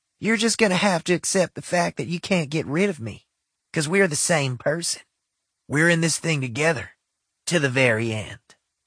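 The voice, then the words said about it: Exaggerated country accent character voice. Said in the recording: “in that fucked up country accent”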